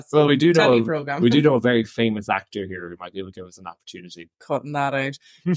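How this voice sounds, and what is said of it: Irish Midlands accent. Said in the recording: “you'll have the sexy Irish accent ... Me and my bogger accent ... he's from the Midlands”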